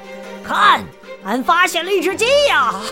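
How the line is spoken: Shouting. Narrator (Chinese): 独臂海盗大喊

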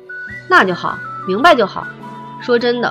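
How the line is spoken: Hearty laugh. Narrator (Chinese): 维京哈哈一笑

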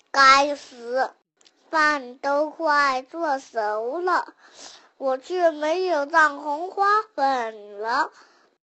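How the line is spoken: Sighing. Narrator (Chinese): 妈妈 突然她叹气说

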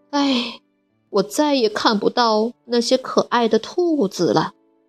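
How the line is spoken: Sighing. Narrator (Chinese): 米娜叹了口气说

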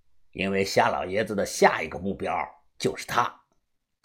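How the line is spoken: Calm, flat. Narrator (Chinese): 查叔他淡淡的讲道

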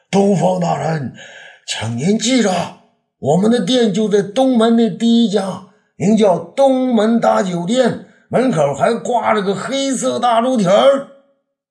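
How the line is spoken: Loud call through cupped hands. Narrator (Chinese): 朱老八 用手呢做成喇叭状，放在口边，大声叫道

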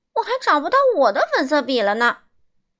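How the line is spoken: Loud cry. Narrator (Chinese): 瑞秋大声叫道

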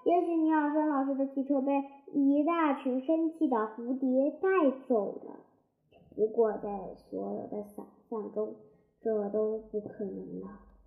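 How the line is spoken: Child's loud announcement. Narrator (Chinese): 号称万事通的孩子大声宣布

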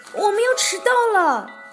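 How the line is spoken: Shouting together. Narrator (Chinese): 他们大声喊

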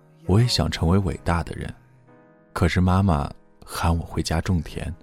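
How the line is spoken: Flat, indifferent. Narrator (Chinese): 张平淡淡的说

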